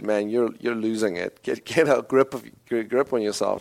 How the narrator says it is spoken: mocked him and said

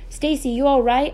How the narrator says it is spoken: I cried

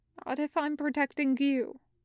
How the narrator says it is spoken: Wei Wuxian mumbles into the back of Zhang Cheng's robes

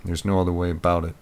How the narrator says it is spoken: he said flatly

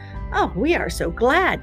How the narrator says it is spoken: cackled the geese, and the gander joined them

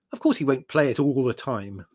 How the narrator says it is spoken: said Larry irritably

